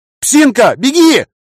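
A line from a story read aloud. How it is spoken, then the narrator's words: Shout. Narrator (Russian): крикнул я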